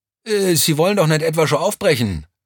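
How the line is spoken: Excited call. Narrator (German): rief Vierlinger aufgeregt

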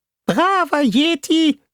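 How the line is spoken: Squeaky helium voice. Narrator (German): sagte Fishboy in seiner piepsigen Heliumstimme

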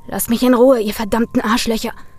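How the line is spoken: Snarling. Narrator (German): fauchte Brian

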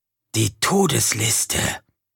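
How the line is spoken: Clarifying whisper. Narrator (German): verdeutlichte er mit einem Flüstern

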